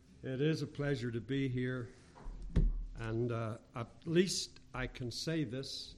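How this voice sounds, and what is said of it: Northern Irish English accent. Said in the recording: “I'm not the one with the accent ... Northern Ireland English ... coming from Northern Ireland”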